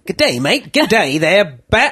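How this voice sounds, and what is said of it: Weak put-on Australian accent. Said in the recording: “sounding a little Australian there ... I can't do an Australian accent”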